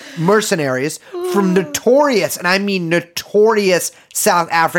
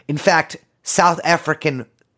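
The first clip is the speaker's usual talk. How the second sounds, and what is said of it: Put-on South African accent. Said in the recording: “Whoa, I even did in the accent.”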